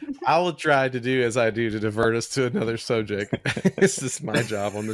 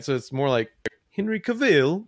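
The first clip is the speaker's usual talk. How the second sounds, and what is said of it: Bad attempt at British accent. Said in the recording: “I think he's British, right? ... a terrible accent. What the fuck? I was so bad.”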